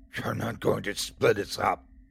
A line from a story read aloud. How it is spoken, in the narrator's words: she growls